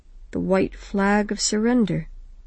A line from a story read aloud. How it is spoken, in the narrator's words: she murmured